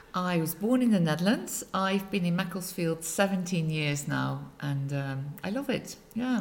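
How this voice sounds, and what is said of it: Non-local Dutch accent. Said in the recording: “I'm guessing from your accent, you're not from Macclesfield”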